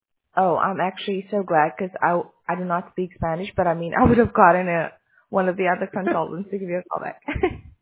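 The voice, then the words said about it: Scratchy voice. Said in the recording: “my voice is a bit scratchy”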